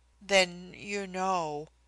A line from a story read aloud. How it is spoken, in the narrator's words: I faltered